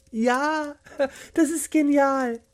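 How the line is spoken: Calling out. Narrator (German): rief Lea

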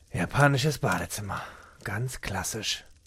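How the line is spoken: Mimicking murmur. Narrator (German): murmelte er, Rainers Worte nachahmend

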